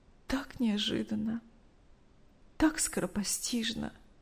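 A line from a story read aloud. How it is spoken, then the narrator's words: Tearful telling. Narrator (Russian): сквозь слезы рассказывала Мария Ивановна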